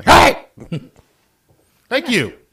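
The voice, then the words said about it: Stern dad voice. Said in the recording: “I've used the dad voice.”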